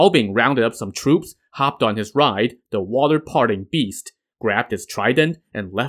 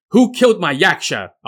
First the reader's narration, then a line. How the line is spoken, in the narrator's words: shouted